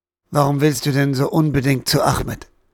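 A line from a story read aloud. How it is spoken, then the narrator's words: Gentle question. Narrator (German): fragte er mit sanfter Stimme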